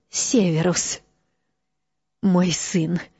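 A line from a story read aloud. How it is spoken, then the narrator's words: Whisper. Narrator (Russian): прошептала она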